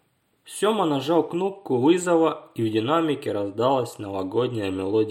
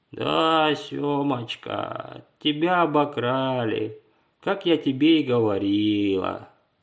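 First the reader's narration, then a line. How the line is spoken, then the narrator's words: Sad reply. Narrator (Russian): Мама печально ответила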